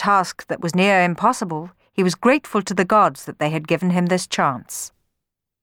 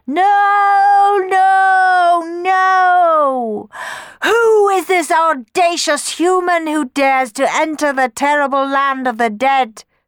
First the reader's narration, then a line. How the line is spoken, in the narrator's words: screamed the Furies